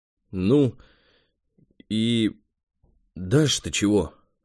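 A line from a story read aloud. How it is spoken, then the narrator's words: Strained, forced words. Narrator (Russian): выдавил он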